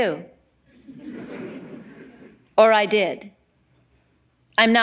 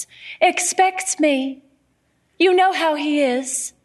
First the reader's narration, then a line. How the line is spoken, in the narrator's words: she says in her high young voice